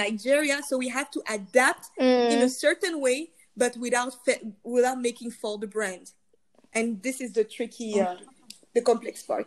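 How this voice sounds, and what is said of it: Foreign accent. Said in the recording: “this accent is so sexy”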